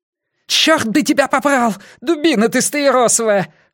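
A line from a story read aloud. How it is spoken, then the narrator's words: Angry yelling. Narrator (Russian): орал Делакруа на Коффи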